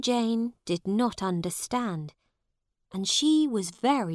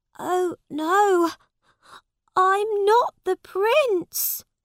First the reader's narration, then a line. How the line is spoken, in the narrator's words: cried Tom on his knees